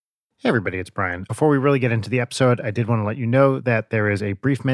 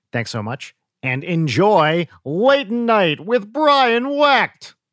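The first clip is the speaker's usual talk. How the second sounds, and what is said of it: Don Pardo announcer impression. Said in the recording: “my Don Pardo impression”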